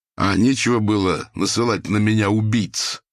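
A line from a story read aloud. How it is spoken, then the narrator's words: Barked, then quieter. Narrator (Russian): гаркнул Лыков, но тут же сбавил тон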